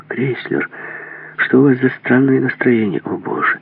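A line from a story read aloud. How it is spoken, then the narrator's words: Quiet. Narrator (Russian): Так же тихо ответил Крейслер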